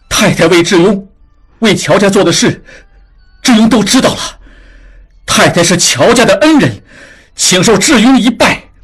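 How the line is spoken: Sudden, loud. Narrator (Chinese): 突然大声说

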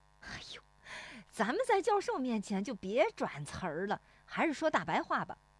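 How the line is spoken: Laughing. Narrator (Chinese): 石有福笑说

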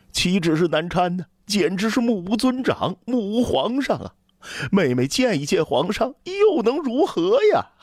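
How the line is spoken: Indignant, stammering. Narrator (Chinese): 李广利不知道该怎样才能表达自己对妹妹的愤懑，说起话来也是结结巴巴的

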